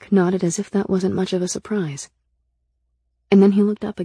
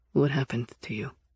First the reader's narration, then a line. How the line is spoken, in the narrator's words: his voice was as serious as ever when he asked